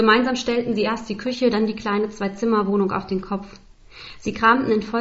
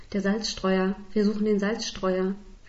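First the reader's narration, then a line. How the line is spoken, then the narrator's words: Whispered. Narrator (German): flüsterte Esther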